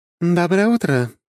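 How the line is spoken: Cheerful voice. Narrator (Russian): бодрым голосом отозвалась Лекса

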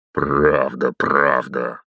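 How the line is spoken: Sinister snort. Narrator (Russian): хмыкнул зловещий незнакомец

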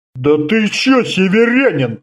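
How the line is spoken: Deep bass voice. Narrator (Russian): басом начал

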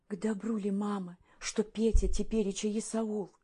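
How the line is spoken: Quiet question. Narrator (Russian): Еленка, узнав от Парамоновны, что Петр жив, лишь тихо спросила

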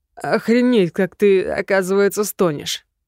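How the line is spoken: Growling. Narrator (Russian): Помпей зарычал

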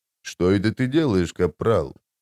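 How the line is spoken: Quiet, through teeth. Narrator (Russian): тихо процедил он

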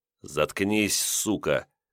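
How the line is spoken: Through gritted teeth. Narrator (Russian): процедил Илья сквозь зубы

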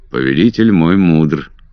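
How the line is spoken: Cold. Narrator (Russian): ответил он холодно

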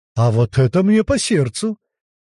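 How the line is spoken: Surprised exclamation. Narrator (Russian): воскликнул удивленный Крут

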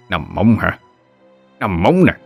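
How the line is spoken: Old man muttering. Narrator (Vietnamese): lão vừa lẩm bẩm

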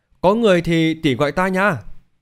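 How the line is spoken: Loud call. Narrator (Vietnamese): Thành Vũ lớn tiếng kêu lên

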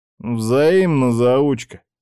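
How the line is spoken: Lazy reply. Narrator (Russian): лениво отозвался Роман

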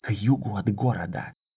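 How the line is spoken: Whisper. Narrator (Russian): шепнул он

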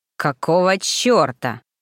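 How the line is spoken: Growled. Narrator (Russian): прорычал Ремгар

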